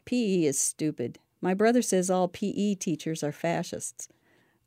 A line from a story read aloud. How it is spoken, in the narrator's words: this thin, gangly girl, with a perpetual sneer, saying